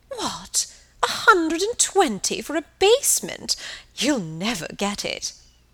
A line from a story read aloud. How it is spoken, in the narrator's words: exclaiming